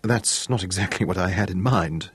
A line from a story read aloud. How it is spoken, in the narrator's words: he murmured